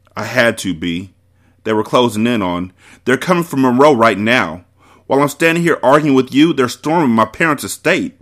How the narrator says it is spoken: Bree shouted in disbelief

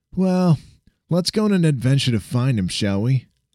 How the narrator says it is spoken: Jack chuckled

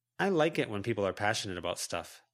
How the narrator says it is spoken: Lucy answered

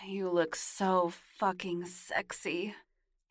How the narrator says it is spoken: he moaned

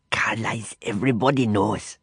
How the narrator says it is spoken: he replied, in a stage whisper so loud that I feared she might hear

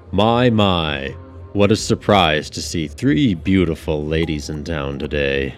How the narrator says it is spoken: a voice boomed

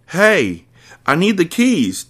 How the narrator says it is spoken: Tim yells

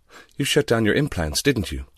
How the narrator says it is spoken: Laura said, sighing

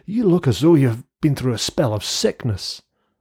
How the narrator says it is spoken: exclaimed

